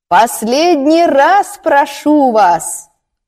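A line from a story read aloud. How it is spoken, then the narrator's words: Shouting as loud as possible. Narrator (Russian): выкрикнула она так громко, как только могла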